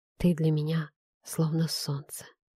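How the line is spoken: Whisper. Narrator (Russian): прошептал

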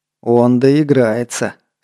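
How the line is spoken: Hiss through clenched teeth. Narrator (Russian): сквозь сжатые челюсти прошипел Скопин

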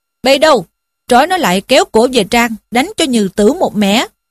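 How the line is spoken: Shouting command. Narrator (Vietnamese): Anh chàng mặc áo vàng liền quát lên rằng

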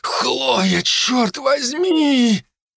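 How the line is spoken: Breathless exhale. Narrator (Russian): Выдохнул я

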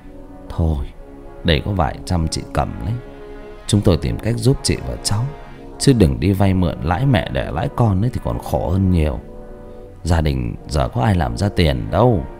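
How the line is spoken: Sighing. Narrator (Vietnamese): ông Hoàng thở dài

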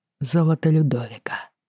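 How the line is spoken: Quiet. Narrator (Russian): тихо сказал он

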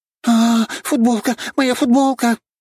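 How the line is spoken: Panicked scream. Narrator (Russian): закричала грудастая

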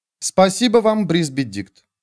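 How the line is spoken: Pointedly formal. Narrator (Russian): сказала она, подчеркнуто официальным тоном

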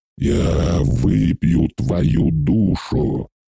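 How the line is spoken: Hoarse rasp, ancient being. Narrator (Russian): прохрипел древний

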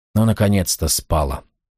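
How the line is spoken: Whisper. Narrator (Russian): прошептал

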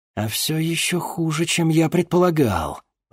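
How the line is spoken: Warlock, through gritted teeth. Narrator (Russian): процедил сквозь зубы чернокнижец

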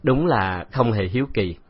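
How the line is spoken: Smiling carefree. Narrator (Vietnamese): Từ Tử Lăng mỉm cười tiêu sái

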